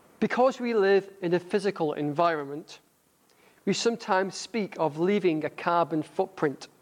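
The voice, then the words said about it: Northern English accent. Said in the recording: “my northern accent ... my northern accent”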